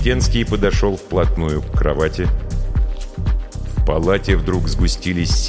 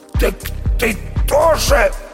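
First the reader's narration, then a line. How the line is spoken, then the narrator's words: Hoarse. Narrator (Russian): прохрипел Никита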